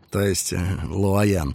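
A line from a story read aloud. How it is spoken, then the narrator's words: Muffled, hollow voice. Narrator (Russian): проговорил Ларт глухо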